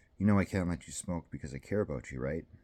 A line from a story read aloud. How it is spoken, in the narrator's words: He sighed